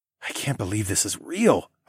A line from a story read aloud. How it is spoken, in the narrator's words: I muttered